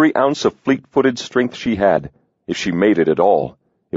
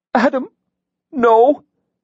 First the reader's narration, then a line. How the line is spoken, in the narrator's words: Adrian pleaded